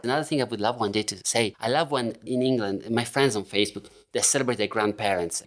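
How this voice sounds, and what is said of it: Italian accent in English. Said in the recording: “The Italian accent ... I'm keeping my Italian one”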